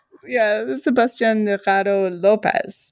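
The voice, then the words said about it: Attempted Spanish accent on a name. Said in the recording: “My Spanish accent is obviously horrible”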